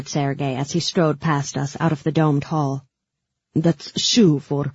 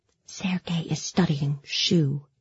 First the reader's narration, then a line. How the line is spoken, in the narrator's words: whispered Nadia